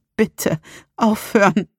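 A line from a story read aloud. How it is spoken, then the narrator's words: Dark inner voice hissing. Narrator (German): Eine finstere Stimme in meinem Schädel fauchte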